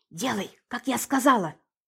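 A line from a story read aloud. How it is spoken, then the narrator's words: Whispered. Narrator (Russian): шепнула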